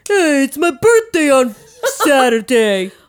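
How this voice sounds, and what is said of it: Put-on character voice. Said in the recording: “Do the Antonio voice.”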